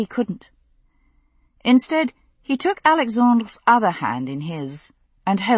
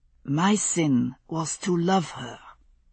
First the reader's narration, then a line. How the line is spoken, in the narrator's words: Alexandre said very softly